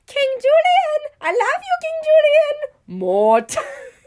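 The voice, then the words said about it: Cartoon lemur character voices. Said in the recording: “my impression of the lemur and Mort.”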